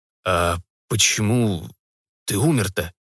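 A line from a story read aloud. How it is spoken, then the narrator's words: Trembling voice. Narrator (Russian): дрогнувшим голосом переспросил Вадим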